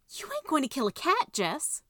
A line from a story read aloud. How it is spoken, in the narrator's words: she yelped